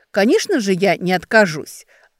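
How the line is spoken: Angry snap. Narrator (Russian): зло бросила Ксения

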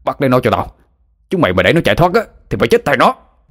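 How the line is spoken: Furious yelling. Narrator (Vietnamese): Thằng Hoàng lúc này mới định thần lại, nó tức tối gào lên

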